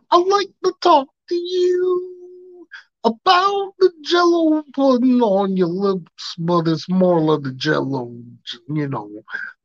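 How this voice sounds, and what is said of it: Imitates another person's voice. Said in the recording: “impersonating Bill Cosby”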